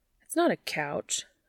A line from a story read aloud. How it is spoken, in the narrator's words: Dean grumbles